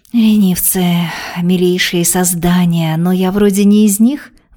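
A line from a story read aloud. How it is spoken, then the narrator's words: Sigh. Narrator (Russian): вздохнула Вероника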